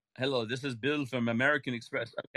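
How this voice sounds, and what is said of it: Put-on foreign accent, scam caller. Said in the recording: “If it's a foreign accent”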